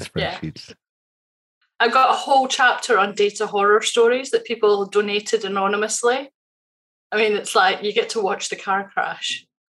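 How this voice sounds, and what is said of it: Scottish accent. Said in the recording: “your accent is awesome. He lived in Scotland for three years ... I love the accent.”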